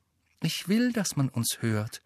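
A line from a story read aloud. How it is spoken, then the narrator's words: Quiet answer. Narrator (German): antwortete sie leise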